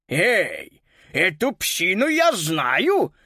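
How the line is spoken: Barked. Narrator (Russian): рявкнул господин Мюллер

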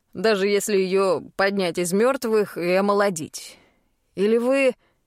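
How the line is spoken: Scoffing snort. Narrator (Russian): хмыкнул шатен

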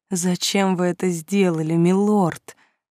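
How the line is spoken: Whisper. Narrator (Russian): прошептала

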